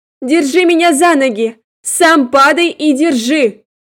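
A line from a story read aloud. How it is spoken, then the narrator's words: Hurried shout. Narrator (Russian): только успела крикнуть бегущему следом парню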